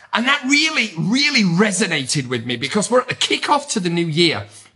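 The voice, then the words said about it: Strong British accent. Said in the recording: “my very strong British accent”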